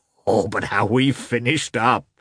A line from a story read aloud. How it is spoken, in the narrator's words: said Petritsky